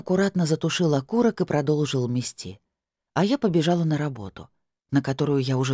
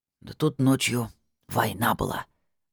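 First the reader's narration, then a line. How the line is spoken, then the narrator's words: Hissing whisper. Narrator (Russian): свистящим шепотом сообщил он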